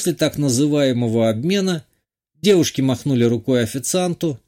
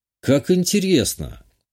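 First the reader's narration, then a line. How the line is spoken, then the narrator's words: Thoughtful. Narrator (Russian): Задумчиво произнес я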